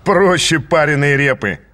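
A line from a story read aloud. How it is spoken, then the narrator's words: Laughing. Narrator (Russian): засмеялся он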